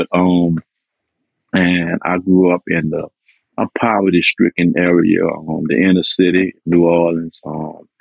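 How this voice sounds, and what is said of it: New Orleans accent. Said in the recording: “I'm a native of New Orleans, Louisiana. I'm sure you're going to get that accent there.”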